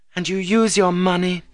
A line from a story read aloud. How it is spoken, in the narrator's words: said Annette bitterly